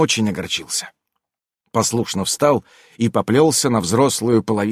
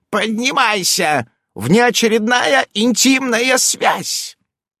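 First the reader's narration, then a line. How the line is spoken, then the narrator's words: Loud command, elder witch. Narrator (Russian): старшая ведьма и громко приказала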